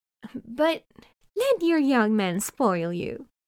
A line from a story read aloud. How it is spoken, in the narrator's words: the old woman says to him cheerfully